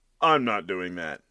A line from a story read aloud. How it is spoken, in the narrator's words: said Andreuccio